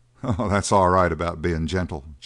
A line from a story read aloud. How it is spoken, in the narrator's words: chuckled Strann